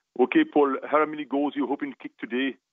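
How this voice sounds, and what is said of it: Put-on West Indian accent. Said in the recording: “I was trying to do my West Indian accent”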